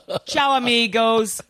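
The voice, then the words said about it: Put-on Italian accent. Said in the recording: “he'd have an Italian accent.”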